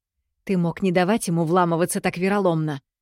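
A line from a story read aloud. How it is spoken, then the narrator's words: Worried hiss. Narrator (Russian): зашипела обеспокоенно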